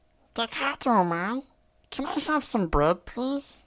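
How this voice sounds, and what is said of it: Imitated cartoon character voice. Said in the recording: “I can impersonate Guillemon from Digimon.”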